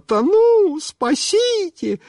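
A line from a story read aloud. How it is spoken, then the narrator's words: Panicked shriek. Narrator (Russian): А тетенька стала думать, что она тонет, и она завизжала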